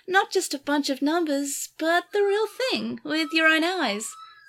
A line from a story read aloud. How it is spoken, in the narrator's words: Saya said dreamily